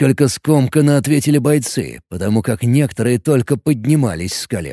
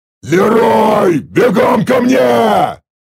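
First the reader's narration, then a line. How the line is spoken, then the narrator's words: Roaring shout. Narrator (Russian): Снова взревел я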